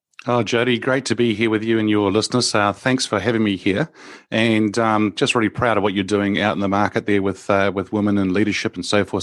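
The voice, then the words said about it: New Zealand accent. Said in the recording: “my accent's a little bit different to maybe some other guests that you have on here. I come from New Zealand.”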